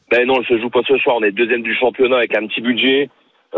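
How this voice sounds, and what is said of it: Sing-song regional French accent. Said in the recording (French): “Tu peux pas tricher avec l'accent ... c'est comme l'accent du Sud, ça, c'est chantant.”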